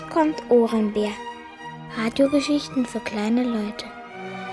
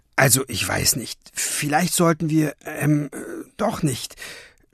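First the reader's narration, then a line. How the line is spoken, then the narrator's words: Half-voiced stammering mutter. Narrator (German): stammelte halblaut vor sich hin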